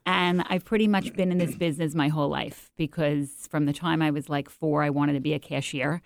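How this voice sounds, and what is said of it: New York accent. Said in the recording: “I'm from New York, if you can't tell from the accent.”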